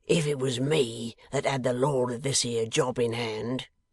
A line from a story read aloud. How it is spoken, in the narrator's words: growled Riderhood